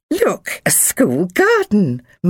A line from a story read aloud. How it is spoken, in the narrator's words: Mum said brightly